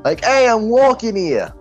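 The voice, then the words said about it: Put-on New York accent. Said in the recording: “I will give the rich businessman a New York accent.”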